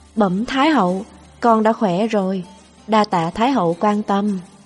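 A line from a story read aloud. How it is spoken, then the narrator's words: Affected, soft reply. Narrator (Vietnamese): Tôi làm điệu bộ, khẽ đáp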